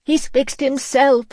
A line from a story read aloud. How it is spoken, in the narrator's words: wailed